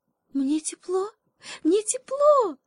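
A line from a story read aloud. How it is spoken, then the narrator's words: Joyful shout, little monkey. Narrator (Russian): Радостно закричала обезьянка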